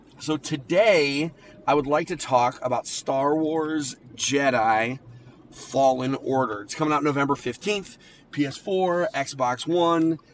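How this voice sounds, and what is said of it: Raspy, recovering voice. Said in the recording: “I had zero voice ... As you can hear, I'm a little raspy also.”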